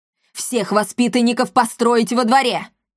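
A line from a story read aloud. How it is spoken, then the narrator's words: Shouted while walking. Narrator (Russian): крикнула на ходу комендантша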